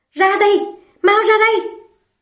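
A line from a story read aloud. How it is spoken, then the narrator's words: Impatient loud shout. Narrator (Vietnamese): cô sốt ruột hét to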